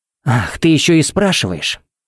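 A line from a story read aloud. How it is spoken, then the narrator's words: Hissing angrily. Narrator (Russian): Пепси зашипела, как газировка из взболтанной банки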